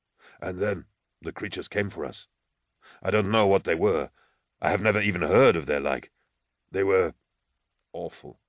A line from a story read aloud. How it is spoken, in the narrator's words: said Thonius quietly